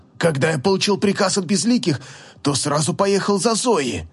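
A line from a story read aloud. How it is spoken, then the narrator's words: Suffering, fearful whisper. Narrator (Russian): явно страдая от гнева повелителя, прошептал магистр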